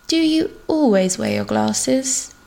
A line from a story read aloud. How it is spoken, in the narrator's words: Jean asks huskily